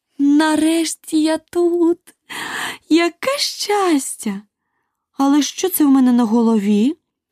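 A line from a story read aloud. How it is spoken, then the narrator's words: Startled cry. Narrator (Ukrainian): скрикнула вона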